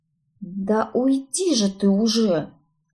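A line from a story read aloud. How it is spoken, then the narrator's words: Barely audible hiss. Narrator (Russian): едва слышно прошипела я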